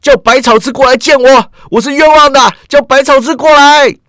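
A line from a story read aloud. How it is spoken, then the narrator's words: Crying out. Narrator (Chinese): 郑恒州只是叫道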